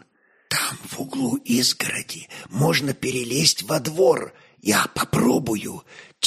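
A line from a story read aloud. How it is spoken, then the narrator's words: Quiet whisper. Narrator (Russian): тихо прошептал Доросеос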